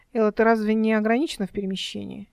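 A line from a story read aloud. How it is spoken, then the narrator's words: Flirtatious declaration. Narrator (Russian): Эл с кокетством заявила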